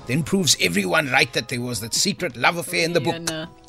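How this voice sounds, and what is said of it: Speaks with an accent. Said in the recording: “Why are you talking with an accent? Are you in the movie?”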